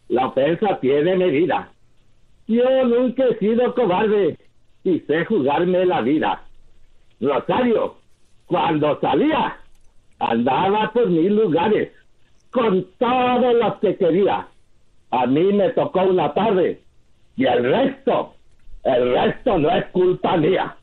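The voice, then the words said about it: Sung imitation of another singer's voice. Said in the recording (Spanish): “muy clarita la imitación de”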